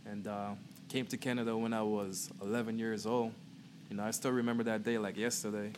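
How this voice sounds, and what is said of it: Guyanese accent. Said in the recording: “I'm from Guyana, Georgetown. I don't know, a lot of people say they can tell from the accent.”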